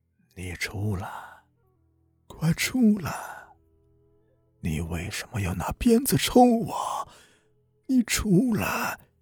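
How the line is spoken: Hoarse, chilling voice. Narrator (Chinese): 他发出嘶哑而又森冷的声音

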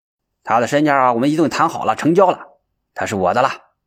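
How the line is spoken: Hurried interruption. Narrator (Chinese): 谭老板急急忙忙的插话说

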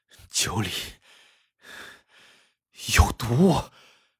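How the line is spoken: Heavy panting, strained. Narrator (Chinese): 刘树文喘着粗气说

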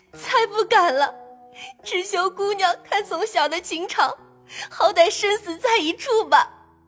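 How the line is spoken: Crying, pleading. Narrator (Chinese): 入画哭求说

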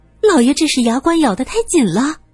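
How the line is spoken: Maid's startled cry. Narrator (Chinese): 一个丫鬟惊叫着

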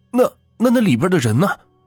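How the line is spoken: Hurried question. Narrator (Chinese): 小柳急忙问

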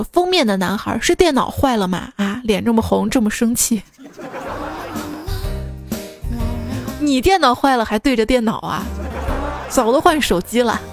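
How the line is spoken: Laughing. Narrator (Chinese): 清香笑语说

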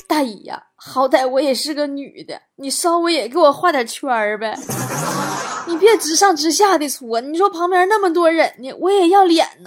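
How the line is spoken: Crying. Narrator (Chinese): 王美丽都让搓澡大妈给搓哭了，一边哭一边说

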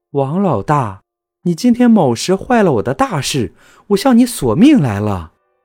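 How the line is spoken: Monster's cold sneer. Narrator (Chinese): 一个怪物 冷笑道

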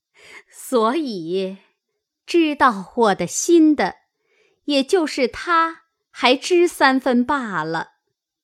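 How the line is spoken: Laughing woman. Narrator (Chinese): 凤姐儿笑道

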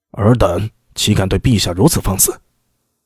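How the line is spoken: Stern, harsh. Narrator (Chinese): 方一爱厉声道

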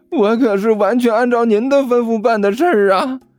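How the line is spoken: Wry laugh. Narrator (Chinese): 刘阿八苦笑着说道

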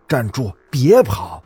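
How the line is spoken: Angry shout. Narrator (Chinese): 那个假班主任 他则 吼我

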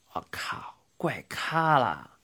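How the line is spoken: Muttering. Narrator (Chinese): 帅基 嘴里喃喃的念道

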